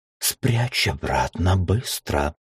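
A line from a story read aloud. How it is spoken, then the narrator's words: Whisper. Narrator (Russian): прошептала она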